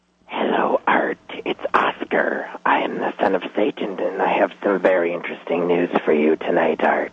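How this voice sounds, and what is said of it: Whispering voice. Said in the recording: “Why are you whispering?”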